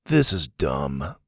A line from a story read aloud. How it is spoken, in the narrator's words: Gavin grumbled